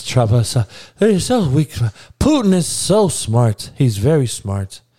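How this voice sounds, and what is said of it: Soft-voiced imitation of another person. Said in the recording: “I'm giving you this Trump speech. That's how Trump goes in his soft voice.”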